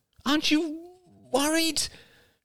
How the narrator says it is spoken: Crystal sighed

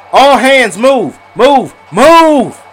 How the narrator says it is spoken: screamed Mr

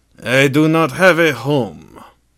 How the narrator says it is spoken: the dwarf sighed

